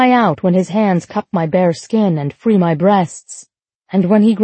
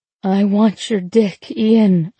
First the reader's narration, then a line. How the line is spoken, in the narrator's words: I groan